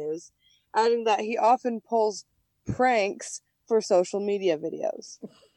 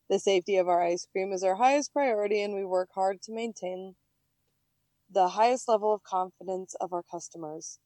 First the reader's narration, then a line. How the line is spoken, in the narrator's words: a spokesperson said